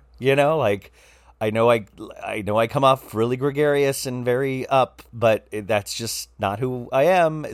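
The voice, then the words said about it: Slightly raspy, hoarse voice. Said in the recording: “my voice is a little raspy ... I think you would hear a little rasp in my voice, which I think probably sounds very sexy”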